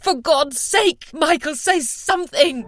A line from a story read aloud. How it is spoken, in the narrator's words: They scoured her features until she could bear it no more and shouted at him